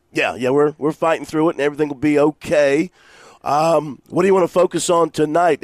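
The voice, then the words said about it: Sick, rough-sounding voice. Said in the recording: “I think we're both suffering from some kind of cold, but you sound terrible.”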